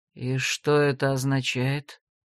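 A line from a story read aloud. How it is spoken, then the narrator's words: Whispered question. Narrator (Russian): Шепотом поинтересовался Себастьян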